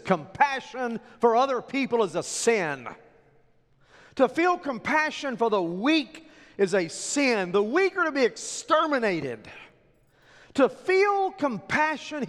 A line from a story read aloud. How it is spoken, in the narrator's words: he yells